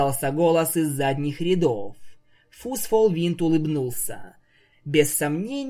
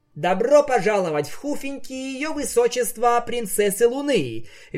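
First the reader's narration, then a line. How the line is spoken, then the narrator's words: Cheerful. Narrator (Russian): весело произнес Фусфол Винт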